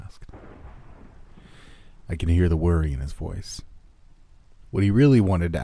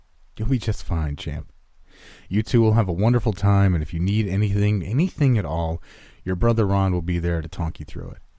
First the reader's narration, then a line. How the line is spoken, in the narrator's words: said my dad